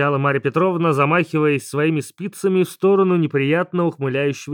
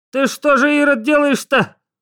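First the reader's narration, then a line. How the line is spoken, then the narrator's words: Old woman shouting. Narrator (Russian): кричала бабуля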